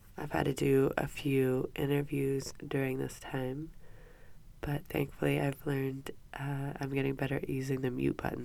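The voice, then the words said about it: Congested, stuffy-nosed voice. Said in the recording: “As you can probably tell by my voice, I've been battling a nasty cough ... I can't really help the stuffy nose sound.”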